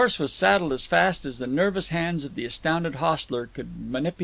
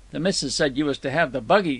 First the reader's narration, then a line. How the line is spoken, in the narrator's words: stammered the man